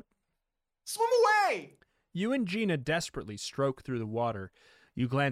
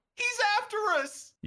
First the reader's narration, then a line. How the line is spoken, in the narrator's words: You scream